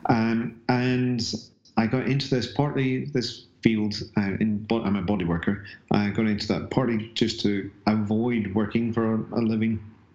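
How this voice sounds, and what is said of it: Northern Irish accent. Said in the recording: “originally I'm from a small town just south of Belfast, Northern Ireland, which is why I have a slightly odd accent”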